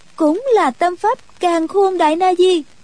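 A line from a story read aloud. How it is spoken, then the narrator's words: Involuntary exclamation. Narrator (Vietnamese): nàng bất giác buộc miệng kêu lên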